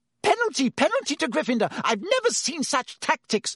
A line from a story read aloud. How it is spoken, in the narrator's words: Madame Hooch screeched